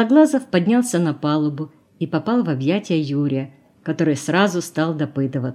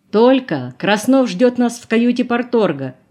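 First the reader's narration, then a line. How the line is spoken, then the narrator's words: Shout. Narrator (Russian): крикнул Колосов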